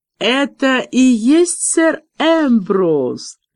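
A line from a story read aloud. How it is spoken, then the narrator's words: Burst of laughter. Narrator (Russian): расхохотался Девлин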